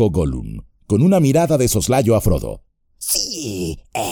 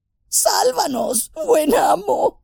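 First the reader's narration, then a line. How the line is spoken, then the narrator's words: Moaning. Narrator (Spanish): gimió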